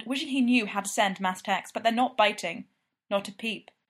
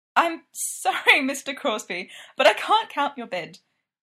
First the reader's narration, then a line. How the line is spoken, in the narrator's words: Julie says, voice shaking with laughter and possibly repressed rage